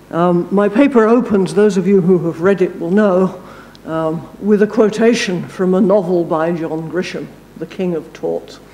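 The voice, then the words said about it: English accent. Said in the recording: “Despite my accent, I know a great deal more about Florida law, for example, than I do about English law.”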